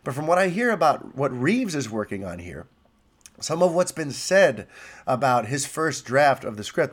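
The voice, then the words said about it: Stuffy, congested voice. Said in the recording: “I'm sorry if I'm a little stuffy. I've got a cold. ... This is as good as I sound today.”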